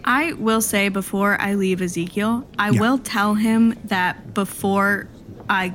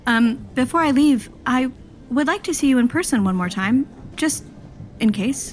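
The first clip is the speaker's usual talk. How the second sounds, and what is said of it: Speaks in a character voice. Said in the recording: “I'll say this in my character voice.”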